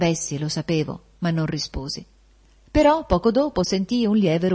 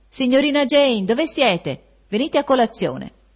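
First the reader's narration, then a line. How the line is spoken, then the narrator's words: Clear voice calling out. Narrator (Italian): una voce chiara gridare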